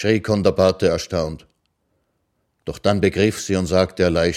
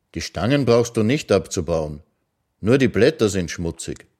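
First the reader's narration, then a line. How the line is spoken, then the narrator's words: Calm. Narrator (German): sagte er ruhig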